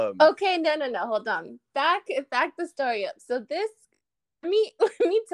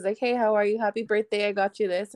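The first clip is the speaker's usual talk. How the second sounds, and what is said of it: Flat monotone imitation of another person. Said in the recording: “I was not that monotone.”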